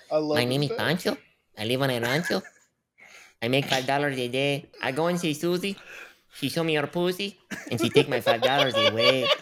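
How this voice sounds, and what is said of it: Put-on accent. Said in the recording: “gotta hear ... the accent, though.”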